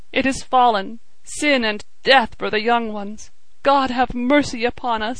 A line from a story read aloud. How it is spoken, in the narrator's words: he sobbed